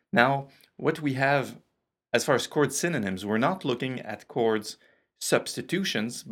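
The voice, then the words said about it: French Canadian accent. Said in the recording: “my French Canadian accent ... I'm just finishing up a cold, so my voice is just on the verge of breaking”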